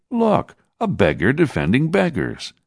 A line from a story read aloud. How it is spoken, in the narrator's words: began to laugh, and one said